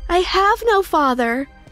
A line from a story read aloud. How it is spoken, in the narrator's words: I yelled